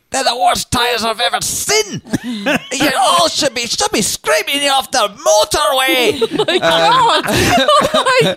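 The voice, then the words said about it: Poor put-on thick Scottish accent. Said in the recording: “in a thick Scottish accent that I will now do a terrible impression”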